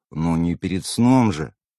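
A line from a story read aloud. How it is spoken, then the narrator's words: Nervous sigh. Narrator (Russian): вздохнул я, сглотнув слюну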